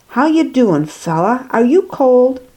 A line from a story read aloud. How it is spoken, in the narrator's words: Zophar calmly asked